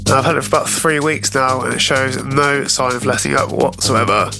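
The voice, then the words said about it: Congested voice from a cold. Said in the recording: “As you can probably tell, I have a bit of a cold at the moment... my awful voice”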